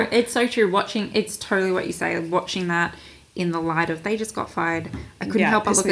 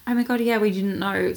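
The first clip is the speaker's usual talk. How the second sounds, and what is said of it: Put-on British accent. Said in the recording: “British accent”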